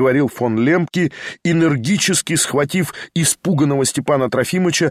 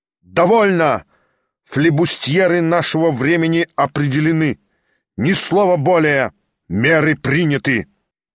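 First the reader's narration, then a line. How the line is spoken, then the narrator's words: Loud, energetic. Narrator (Russian): Он проговорил громко, на всю комнату заключил энергически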